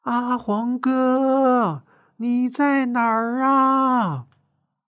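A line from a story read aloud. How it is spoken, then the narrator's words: Anxious loud call. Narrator (Chinese): 他有些着急了，对着松树林大声喊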